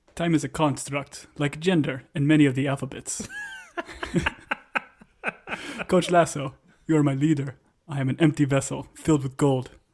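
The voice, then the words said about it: Put-on character accent. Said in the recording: “Just read the outline in his accent for now on, please.”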